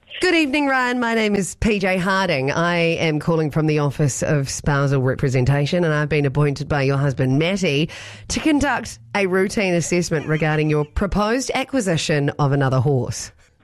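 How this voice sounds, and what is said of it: Mock-serious formal voice. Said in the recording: “serious voice”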